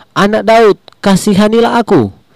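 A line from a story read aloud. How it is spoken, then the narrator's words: Crying out louder. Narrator (Indonesian): semakin keras ia berseru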